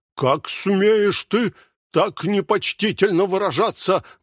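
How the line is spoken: Angry exclamation. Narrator (Russian): воскликнул с гневом Дон Кихот

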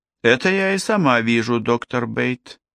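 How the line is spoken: Sighing. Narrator (Russian): вздохнула Ким

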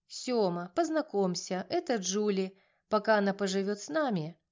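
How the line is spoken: Calm voice. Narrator (Russian): Спокойным голосом начала я

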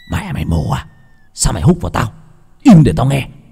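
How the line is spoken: Scared, angry shout. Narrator (Vietnamese): Đang sợ với bị húc mạnh, 8-6 ngón quát lên

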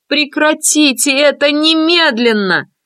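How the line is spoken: Shouting. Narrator (Russian): закричала Даша

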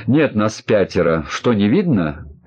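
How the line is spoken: Grumbled somewhat angrily. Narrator (Russian): Несколько зло пробурчала Оксана

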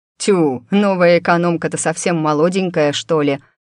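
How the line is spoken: Distrustful deep bass. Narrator (Russian): пробасил недоверчиво один

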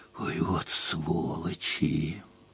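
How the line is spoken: Hatefully tender aloud. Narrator (Russian): ненавидяще нежно сказала вслух

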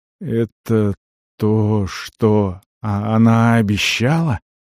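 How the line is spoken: Unsteady voice question. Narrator (Russian): спросил он неровным голосом

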